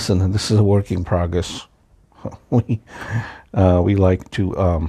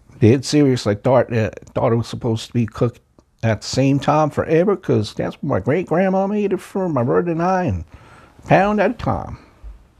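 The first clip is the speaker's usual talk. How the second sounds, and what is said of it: Put-on Southern accent. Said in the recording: “How'd you like my southern accent? Pretty good? Yes? No? Maybe not.”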